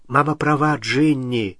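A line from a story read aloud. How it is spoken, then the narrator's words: Soft. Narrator (Russian): мягко сказал Билл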